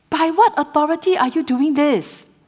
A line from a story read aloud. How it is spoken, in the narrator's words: the chief priests in chapter 21 shouted